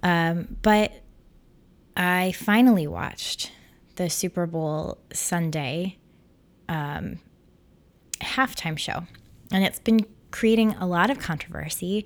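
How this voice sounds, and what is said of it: Voice sounds sick. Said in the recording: “I have been sick all weekend, so you might hear it in my voice.”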